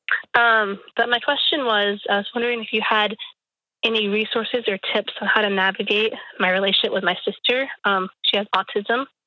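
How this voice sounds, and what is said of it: Congested voice from a cold. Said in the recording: “I have a cold. My voice is going to be a little funny.”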